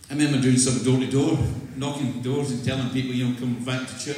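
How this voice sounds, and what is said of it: Scottish accent. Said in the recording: “I'm not English, I'm from Scotland. This is an accent. It's not an impediment.”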